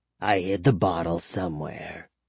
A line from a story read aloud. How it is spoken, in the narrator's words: he muttered